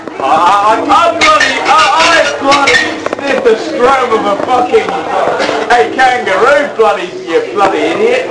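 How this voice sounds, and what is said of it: Put-on Australian accent, shouting. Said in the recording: “we're on to Australian accents. Cue loads of shouting and swearing in Australian.”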